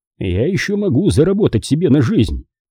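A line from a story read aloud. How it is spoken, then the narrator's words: Grumbling. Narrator (Russian): проворчал он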